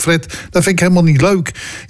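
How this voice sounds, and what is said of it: Put-on Rotterdam accent. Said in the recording (Dutch): “ik doe een beetje een Rotterdamse accent.”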